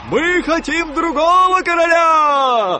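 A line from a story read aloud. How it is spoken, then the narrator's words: Soldiers shouting together. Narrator (Russian): кричали солдаты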